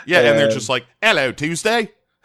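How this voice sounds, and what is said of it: Terrible put-on Australian accent. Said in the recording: “That's a terrible accent.”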